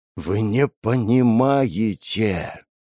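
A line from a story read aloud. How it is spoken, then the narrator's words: Strained, forced out. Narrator (Russian): наконец выдавил Николай Петрович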